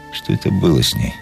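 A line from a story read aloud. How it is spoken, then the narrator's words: Muttered. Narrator (Russian): пробормотал он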